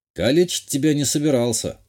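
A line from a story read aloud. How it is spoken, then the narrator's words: Wry snort. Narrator (Russian): хмыкнул я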